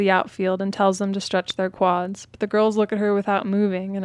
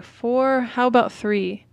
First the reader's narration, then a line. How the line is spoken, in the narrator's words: The older girls groan and say